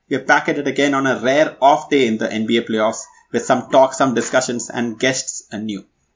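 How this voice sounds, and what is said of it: Indian-accented English. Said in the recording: “Your favorite NBA podcast in an Indian accent.”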